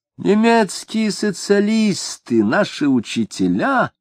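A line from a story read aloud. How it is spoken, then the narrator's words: Cooing. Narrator (Russian): ворковал Шемякин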